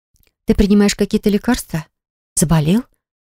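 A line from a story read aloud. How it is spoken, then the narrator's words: Worried question. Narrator (Russian): спросила Милана озабоченным голосом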